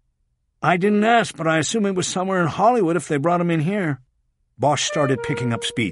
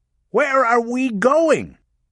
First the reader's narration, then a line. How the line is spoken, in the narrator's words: Rachel Walling yelled over the sound of the siren